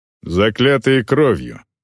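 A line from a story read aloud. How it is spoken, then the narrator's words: Exclaimed. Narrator (Russian): воскликнул Глорнер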